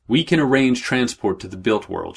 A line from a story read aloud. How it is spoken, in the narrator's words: she said